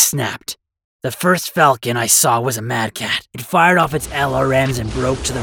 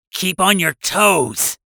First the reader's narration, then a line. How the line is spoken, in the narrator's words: I shouted